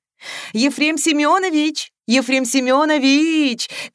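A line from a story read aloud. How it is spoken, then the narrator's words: Shouting. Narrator (Russian): кричала она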